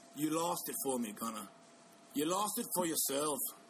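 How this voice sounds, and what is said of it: Weak put-on accent, slightly Irish. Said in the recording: “That was a little bit Irish ... My accents aren't very good.”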